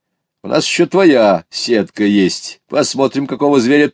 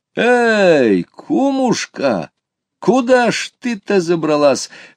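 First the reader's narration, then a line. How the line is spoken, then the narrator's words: Friend's exclamation. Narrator (Russian): воскликнул мой приятель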